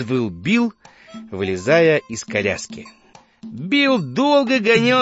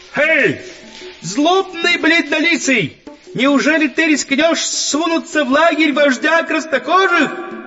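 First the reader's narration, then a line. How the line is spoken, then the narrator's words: Shouted. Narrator (Russian): он закричал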